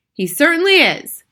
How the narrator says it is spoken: Bruno shouted from inside the handbag

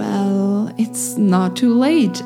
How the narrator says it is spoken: said with a sigh

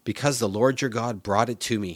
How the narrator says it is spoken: he replied

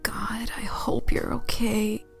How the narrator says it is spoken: Laura whispered to her pet

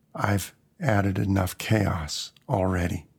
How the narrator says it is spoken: I said quietly, not sure if anyone could have heard

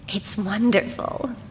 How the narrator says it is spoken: she whispered to Madeline

